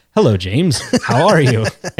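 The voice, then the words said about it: Scottish-accented celebrity impression. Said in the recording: “This is my Sean Connery ... it's like a Scottish accent, sort of”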